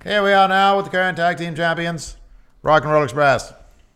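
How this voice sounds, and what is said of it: Put-on mid-Atlantic announcer accent. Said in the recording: “Why do you do the mid-Atlantic accent for? ... The transatlantic accent. ... I think it's mid-Atlantic.”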